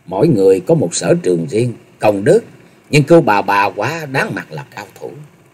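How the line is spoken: Very low voice, wry smile. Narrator (Vietnamese): Ngao Trường Thanh hơi nhép mép cười, rồi hạ giọng thật thấp nói

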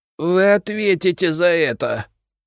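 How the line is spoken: Alchemist moaning. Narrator (Russian): простонал алхимик

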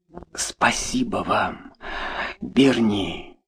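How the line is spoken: Whisper. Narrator (Russian): прошептала она

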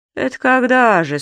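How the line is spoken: Sleepy. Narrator (Russian): сонным голосом спросил господин Пепперминт

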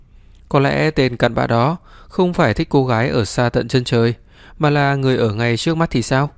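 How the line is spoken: Laughing, vague reply. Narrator (Vietnamese): Lâm Trình bật cười, mơ hồ đáp lại cô

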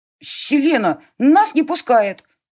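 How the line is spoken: Indignant boy. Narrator (Russian): Возмущенно сказал мальчишка

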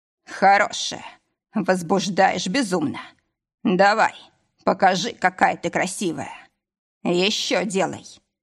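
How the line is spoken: Hoarse rasp. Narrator (Russian): прохрипел

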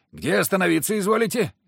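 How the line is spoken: Coachman shouted. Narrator (Russian): крикнул кучер

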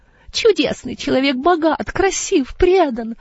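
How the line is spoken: Joyful sigh. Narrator (Russian): вздохнула госпожа Эйнер, радостно сжав руки

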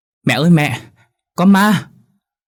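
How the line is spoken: Terrified fleeing scream. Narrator (Vietnamese): gã vừa hét lớn

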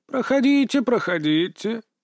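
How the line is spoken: Creaky voice. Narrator (Russian): проскрипел он

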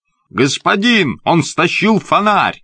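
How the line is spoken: Shouted. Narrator (Russian): закричал Джозеф

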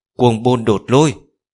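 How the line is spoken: Shaken, ceaseless roaring. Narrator (Vietnamese): Trong lòng mông trùng chấn động, không ngừng gào thét

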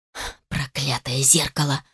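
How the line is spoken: Hiss. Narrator (Russian): шипела Сара

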